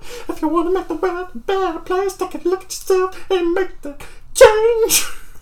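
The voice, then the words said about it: Poor singing imitation of another person. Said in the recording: “My Michael Jackson impression is horrible”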